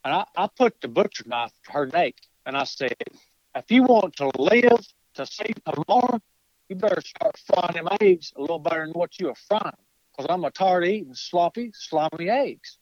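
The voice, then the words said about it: Imitates another person's voice. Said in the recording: “I'll give you my best Jesco impersonations.”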